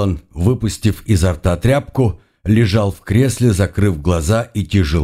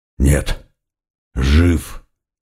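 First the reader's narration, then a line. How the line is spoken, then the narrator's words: Hoarse reply. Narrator (Russian): последовал хриплый ответ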